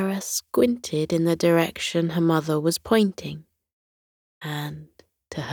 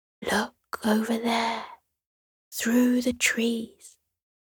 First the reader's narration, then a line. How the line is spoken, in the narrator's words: the Queen whispered to Sierra